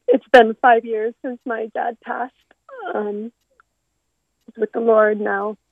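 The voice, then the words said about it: Emotional, voice close to tears. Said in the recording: “I'm getting a little emotional.”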